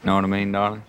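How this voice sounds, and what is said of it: Exaggerated deep Texas accent. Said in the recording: “I can get rid of the Texas accent whenever I want. Or I can just slide real deep on into it like this.”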